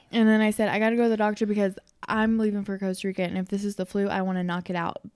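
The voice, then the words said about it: Slightly off voice from a cold. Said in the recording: “my voice may be a tad bit off. I have a cold”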